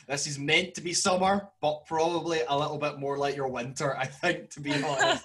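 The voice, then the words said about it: Broad Scottish accent, spoken slowly. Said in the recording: “This is a very broad Scottish accent, so I will speak slowly and try and pronounce every letter”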